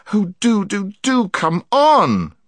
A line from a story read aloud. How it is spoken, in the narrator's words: begged Jill